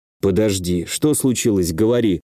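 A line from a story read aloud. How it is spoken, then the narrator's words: Calm. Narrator (Russian): спокойно произнес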